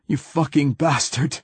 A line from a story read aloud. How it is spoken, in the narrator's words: he gasped